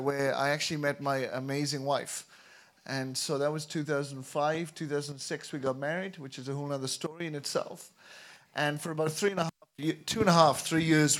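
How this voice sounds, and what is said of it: Welsh accent. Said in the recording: “As you can tell by my accent, I'm not from Korea ... But I'm from Wales”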